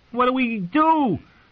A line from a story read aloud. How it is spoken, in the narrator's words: Satin shouted